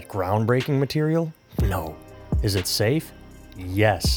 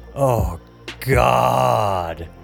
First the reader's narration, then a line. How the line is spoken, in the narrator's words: groaned in that manner, just overemphasizing my exasperation to show I was being absurd